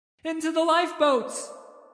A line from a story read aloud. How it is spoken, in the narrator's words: was screaming